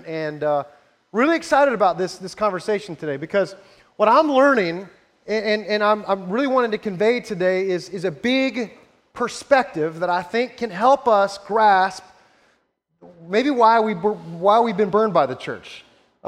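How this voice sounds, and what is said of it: Raspy, rough voice. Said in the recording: “my voice has been a little funky today and raspy and not sounding so great”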